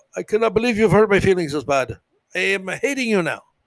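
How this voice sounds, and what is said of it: Bad put-on Indian accent. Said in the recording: “Why did I use an Indian accent for a Romanian person? ... First with a bad accent of Indian people ... I don't really know how to do a Romanian accent. So I did an Indian accent.”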